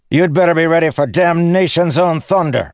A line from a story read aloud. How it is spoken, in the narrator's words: Sadius's officer shouted at Dalinar